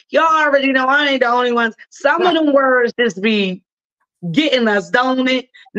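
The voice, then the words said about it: Baltimore accent. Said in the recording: “my fam already called out my Baltimore accent”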